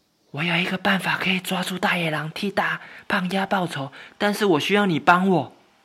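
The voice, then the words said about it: Soft, quiet, hushed voice. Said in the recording (Chinese): “小小声的说”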